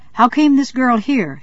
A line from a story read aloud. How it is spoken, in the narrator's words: he exclaimed